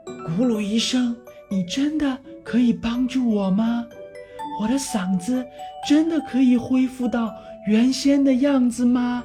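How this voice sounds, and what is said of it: Quiet, hushed questioning voice. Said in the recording (Chinese): “小声地问道”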